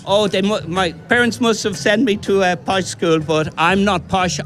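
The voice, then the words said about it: Mixed Irish accent, strong voice. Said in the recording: “What's that accent, though? I'm picking up all kinds of things in the accent. ... You have a powerful, strong voice.”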